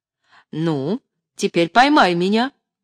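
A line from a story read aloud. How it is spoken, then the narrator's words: Triumphant voice. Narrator (Russian): торжествующим голосом сказала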